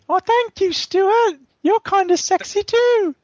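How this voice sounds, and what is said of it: Put-on sexy female character voice. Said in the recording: “You sound kind of sexy.”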